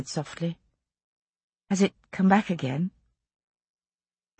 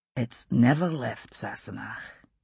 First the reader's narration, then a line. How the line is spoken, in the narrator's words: he said just as softly